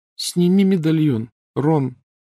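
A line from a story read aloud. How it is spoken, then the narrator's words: Unusually high-pitched request. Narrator (Russian): непривычно тонким голосом попросила Гермиона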